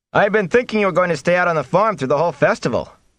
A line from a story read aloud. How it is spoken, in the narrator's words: Perrin Ibarra shouted at Rand over the clamor